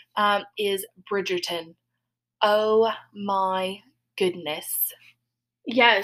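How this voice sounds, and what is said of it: Put-on English period-drama accent. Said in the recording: “In my Bridgerton accent. ... good to all of our English listeners”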